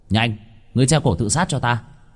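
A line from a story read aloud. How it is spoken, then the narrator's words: Shout. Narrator (Vietnamese): Vương Bình quát lên với con quỷ treo cổ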